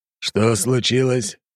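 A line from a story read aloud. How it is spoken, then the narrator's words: Menacing question. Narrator (Russian): грозно спросил Громов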